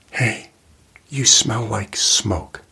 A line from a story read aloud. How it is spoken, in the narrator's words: she said, in a whisper